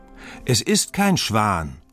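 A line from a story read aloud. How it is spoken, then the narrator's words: Calling out. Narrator (German): ruft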